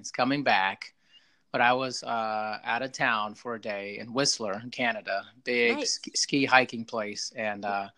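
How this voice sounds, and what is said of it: Slightly hoarse voice. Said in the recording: “my voice is a little hoarse today, slightly... I blew my voice out”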